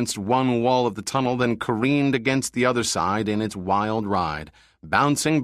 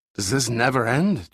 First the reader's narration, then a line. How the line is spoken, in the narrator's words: Giordino gasped